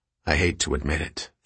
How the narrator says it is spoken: Theo said quietly to Peter

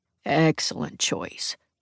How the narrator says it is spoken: Jack murmurs

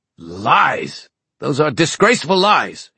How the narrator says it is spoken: roared

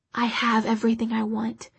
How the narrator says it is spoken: she whispered

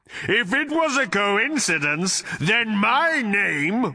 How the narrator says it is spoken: roared the voice

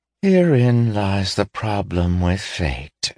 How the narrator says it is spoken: she said wearily

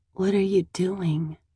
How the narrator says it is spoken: I murmur

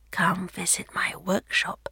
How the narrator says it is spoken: he whispered in the Emperor's ear

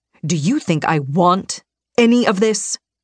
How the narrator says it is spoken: he spat

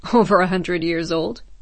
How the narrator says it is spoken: Jaeger laughed

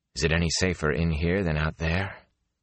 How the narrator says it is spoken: Rand said softly

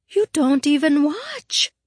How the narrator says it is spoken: the girl cried out in alarm

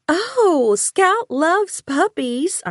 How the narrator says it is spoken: exclaimed

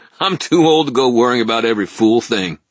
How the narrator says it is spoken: Ebenezer snorted and said

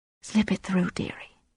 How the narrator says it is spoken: she whispered

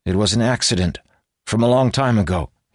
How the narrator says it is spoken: he said, trying to keep his voice steady

